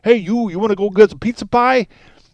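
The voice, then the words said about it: Put-on New York accent. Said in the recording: “When I'm talking like I'm from New York City”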